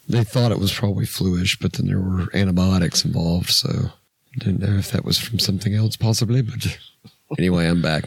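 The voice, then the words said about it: Rough, strained voice. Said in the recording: “My voice is a little, as you can see, on the F-U-C-T side.”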